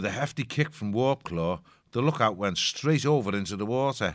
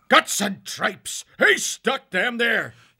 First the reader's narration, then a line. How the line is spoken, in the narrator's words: snarled